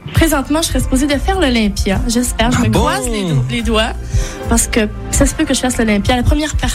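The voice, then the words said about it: Speaks with a regional accent. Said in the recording (French): “vous la taquinez sur son accent”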